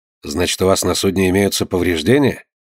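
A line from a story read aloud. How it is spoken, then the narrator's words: Plain. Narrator (Russian): спросил Айртон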